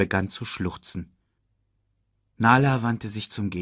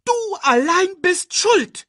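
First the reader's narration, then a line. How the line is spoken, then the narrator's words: Shrieking. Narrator (German): kreischte Timon Nala an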